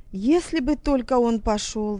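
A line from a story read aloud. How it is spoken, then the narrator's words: Sighing. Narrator (Russian): вздохнула она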